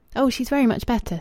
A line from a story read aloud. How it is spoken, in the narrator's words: said Rachel eagerly